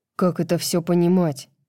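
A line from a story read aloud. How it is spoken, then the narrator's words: Angry question. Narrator (Russian): сердито спросил Итан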